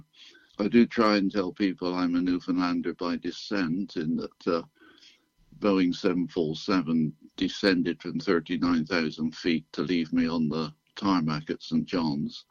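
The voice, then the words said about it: British accent. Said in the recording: “You can tell from my accent, I'm not yet a Newfoundlander. I was born in the UK”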